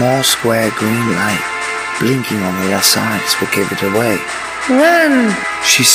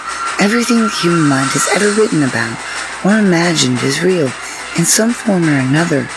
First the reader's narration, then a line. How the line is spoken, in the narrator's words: she said in a snooty tone